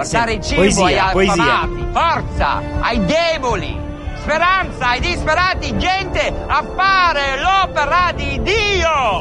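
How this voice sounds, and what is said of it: Italian with American accent, navigator-like. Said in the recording (Italian): “con l'accento americano ... parla come la voce del navigatore”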